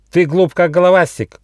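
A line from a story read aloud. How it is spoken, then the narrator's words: Shouting. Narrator (Russian): кричал он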